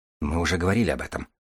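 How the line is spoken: Grumbled. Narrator (Russian): буркнул Хан

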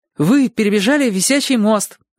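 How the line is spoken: Joyful relieved exclamation. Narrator (Russian): радостно воскликнул Чик, чувствуя, что вопрос о курятине отсечен навсегда

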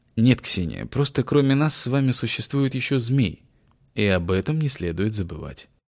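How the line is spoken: Gentle, smiling. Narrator (Russian): мягко улыбнувшись, сказал

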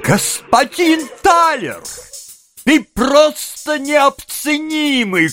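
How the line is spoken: Shouted. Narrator (Russian): крикнул мистер Пенни

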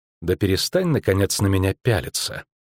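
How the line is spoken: Quiet offended snort. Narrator (Russian): Все еще обиженная Цири тихо фыркнула

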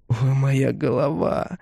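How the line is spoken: Moaning. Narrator (Russian): стонал он

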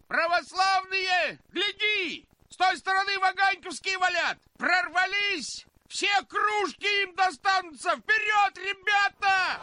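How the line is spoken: Shouted. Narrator (Russian): Почтальон язычно крикнул

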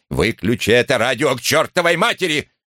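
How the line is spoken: Barking snap. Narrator (Russian): Чисхолм рявкнул

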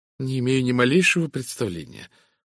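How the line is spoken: Embarrassed muttering. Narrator (Russian): покраснев, пробормотала миссис Таниус

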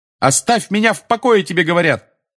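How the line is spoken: Yelling. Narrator (Russian): заорал Гарри

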